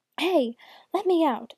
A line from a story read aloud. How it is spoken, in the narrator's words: the baker woman shouted